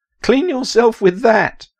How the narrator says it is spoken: Prellis said through giddy laughter

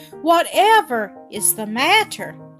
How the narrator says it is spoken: cried Mother

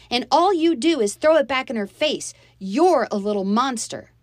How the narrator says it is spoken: I shouted

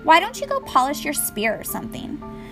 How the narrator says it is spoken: Annabeth sighed

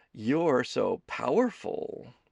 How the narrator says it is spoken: Kelsey purred

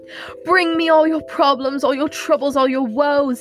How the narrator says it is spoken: he screamed, fleeing into the night

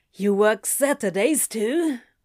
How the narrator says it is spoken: Crowley asked, a little croakily

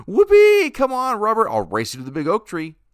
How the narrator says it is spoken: George felt so happy, hollering

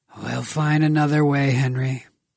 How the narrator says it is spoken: Grigor sighed

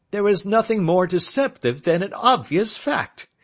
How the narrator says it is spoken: he answered, laughing

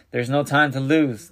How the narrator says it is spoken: cried, full of renewed hope

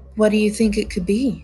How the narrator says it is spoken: She asked, twirling the ends of her hair nervously

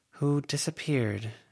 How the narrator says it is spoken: Avery murmured

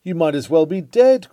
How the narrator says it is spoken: cries one

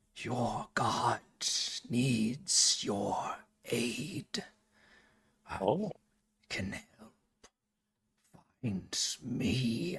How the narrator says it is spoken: A voice, a new voice that you've never heard before, whispers in your mind

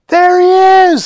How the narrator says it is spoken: somebody shouted

